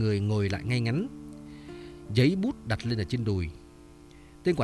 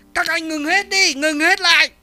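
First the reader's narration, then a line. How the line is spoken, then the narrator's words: Shouting. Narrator (Vietnamese): Hắn hét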